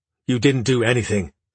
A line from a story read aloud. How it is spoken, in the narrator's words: Adina said, her voice angry